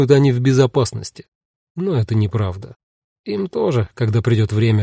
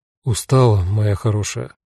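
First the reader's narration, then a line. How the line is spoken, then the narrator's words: Tender question. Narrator (Russian): ласково спросил Руди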